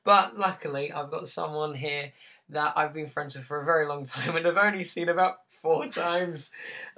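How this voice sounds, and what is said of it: Hoarse, sore-throat voice. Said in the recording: “I still have a weird voice ... I've just got a really sore throat still”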